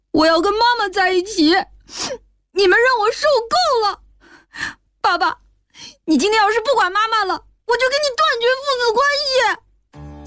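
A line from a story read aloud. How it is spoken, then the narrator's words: Crying while speaking. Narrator (Chinese): 小军边哭边说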